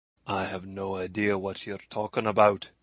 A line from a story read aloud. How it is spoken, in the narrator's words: he replied evenly